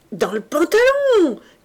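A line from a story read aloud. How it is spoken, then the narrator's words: Excited energetic shout. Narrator (French): cria énergiquement Gueulin, excité par ce spectacle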